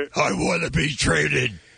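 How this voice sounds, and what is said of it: Batman-like voice imitating another person. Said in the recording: “impression ... That's more Batman. ... You're Christian Bale Batman.”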